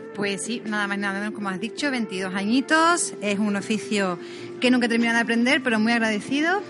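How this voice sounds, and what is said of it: Strong Andalusian Spanish accent. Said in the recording (Spanish): “tienes acento andaluz que salta, ¿eh? ... De Cádiz, soy de Cádiz.”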